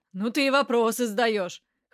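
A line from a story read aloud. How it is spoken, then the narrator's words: Snorting. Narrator (Russian): хмыкнул Попадян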